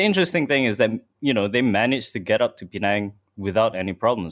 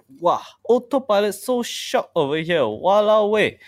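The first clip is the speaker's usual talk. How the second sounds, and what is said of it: Good put-on Singaporean accent. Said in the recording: “you like my Singaporean accent. ... That was very good. Yeah, well done.”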